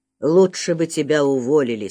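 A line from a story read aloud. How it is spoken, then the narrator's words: Hollow, chilling voice. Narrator (Russian): сказал он таким глухим голосом, от которого кровь застыла внутри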